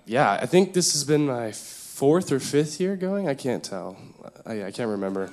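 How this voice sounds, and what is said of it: Hoarse, mostly lost voice. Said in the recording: “I was screaming a lot during worship, so my voice is kind of gone right now”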